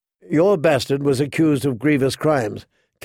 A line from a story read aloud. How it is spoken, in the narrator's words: Catelyn reminded him sharply